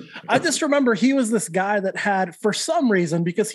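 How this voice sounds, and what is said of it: Usual voice. Nothing is said of it.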